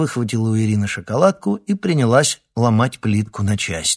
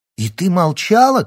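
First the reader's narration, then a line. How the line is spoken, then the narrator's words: Shout. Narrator (Russian): крикнула Марина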